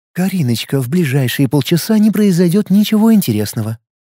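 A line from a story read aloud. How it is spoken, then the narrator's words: Honeyed singsong. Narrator (Russian): медовым голоском пропела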